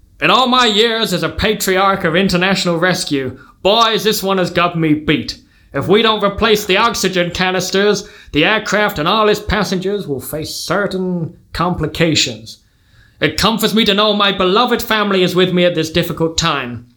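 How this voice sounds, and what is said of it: Put-on American accent. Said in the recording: “They're Americans. I'm gonna have to do an accent now, right?”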